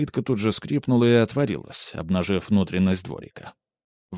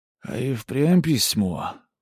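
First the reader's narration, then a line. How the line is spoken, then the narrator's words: Drawling. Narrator (Russian): протянул он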